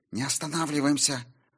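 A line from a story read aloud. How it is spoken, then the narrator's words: Hissed. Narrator (Russian): прошипела Сильвия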